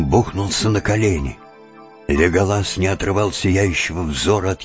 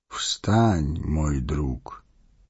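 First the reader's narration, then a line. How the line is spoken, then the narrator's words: Gentle, affectionate. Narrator (Russian): ласково сказал он гному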